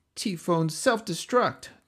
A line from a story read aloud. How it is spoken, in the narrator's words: Donnie cried